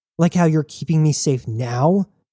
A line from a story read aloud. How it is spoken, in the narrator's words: Jazz yelled